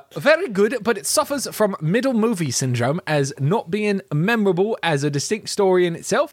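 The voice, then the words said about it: Reads in a put-on accent. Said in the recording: “not from wherever that accent's from”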